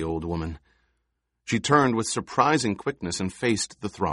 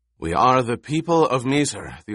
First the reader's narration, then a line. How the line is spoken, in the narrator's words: the old woman rasped